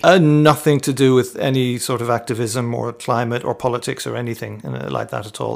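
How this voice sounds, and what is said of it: Irish accent. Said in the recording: “Is that not a Tunbridge Wells accent you've got then? ... It's not. No. I'm Irish ... I'm an Irishman.”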